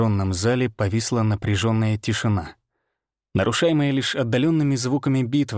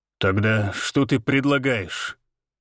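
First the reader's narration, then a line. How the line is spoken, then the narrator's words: Through gritted teeth. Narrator (Russian): Процедил сквозь зубы Валентин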